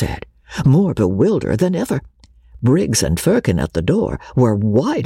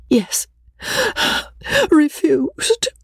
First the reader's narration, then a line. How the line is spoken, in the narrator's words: Rebecca answered tearfully